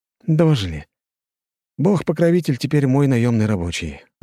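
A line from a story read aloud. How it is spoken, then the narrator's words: Sighed. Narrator (Russian): вздохнул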